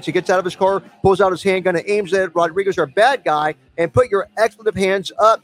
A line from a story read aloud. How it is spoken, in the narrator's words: he yells